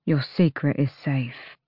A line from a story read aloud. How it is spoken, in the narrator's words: Nox murmured